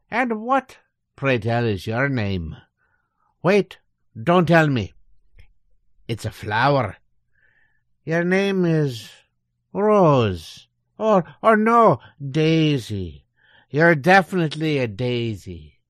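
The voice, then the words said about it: Exaggerated stage Irish accent. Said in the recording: “you can just drop the stage Irish accent”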